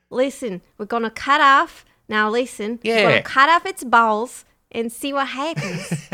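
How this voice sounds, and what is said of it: Failed attempt at Australian accent. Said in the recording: “That's not an Australian accent at all. No, that didn't do it. That wasn't good.”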